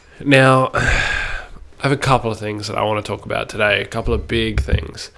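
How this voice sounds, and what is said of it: Voice sounds unwell. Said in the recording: “A little bit crook, as I'm sure you can probably hear in my voice”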